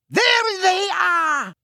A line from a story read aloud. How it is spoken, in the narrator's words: she shrieked